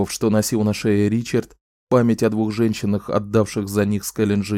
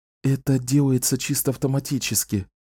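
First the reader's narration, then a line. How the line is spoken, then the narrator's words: Whispering. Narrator (Russian): шепнула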